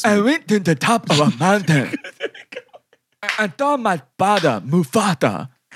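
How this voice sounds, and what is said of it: Put-on Wakanda accent. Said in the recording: “do the Wakanda voice,”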